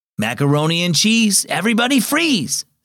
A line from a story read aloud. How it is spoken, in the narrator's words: Sam, the camp counselor, called out over the rowdy summer campers